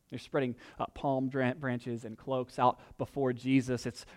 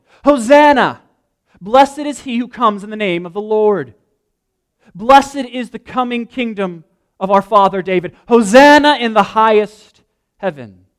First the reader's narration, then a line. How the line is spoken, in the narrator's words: Those who went ahead and those who followed shouted